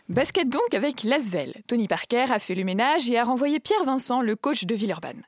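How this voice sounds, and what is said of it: Put-on Alsatian accent. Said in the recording (French): “à l'alsacienne ... Je pimente la chronique avec mon accent”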